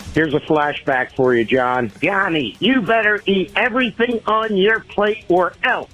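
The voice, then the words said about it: Imitates another person's voice. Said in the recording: “That was like a really good impression.”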